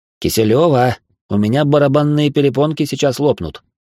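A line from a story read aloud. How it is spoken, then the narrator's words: Grumbled. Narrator (Russian): Проворчал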